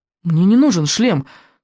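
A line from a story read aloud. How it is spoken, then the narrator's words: Hasty interruption. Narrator (Russian): торопливо перебил Икинг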